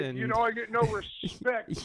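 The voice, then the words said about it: Poor imitation of another person's voice. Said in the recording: “That was a horrible impression. ... Totally failed on my delivery.”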